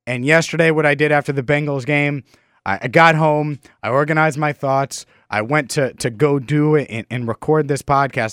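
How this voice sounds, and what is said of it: Slightly congested voice from a cold. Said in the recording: “I'm battling what I think is a cold, and you could probably hear it in my voice a little bit”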